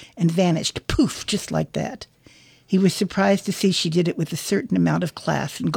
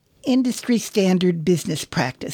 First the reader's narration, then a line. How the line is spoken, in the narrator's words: said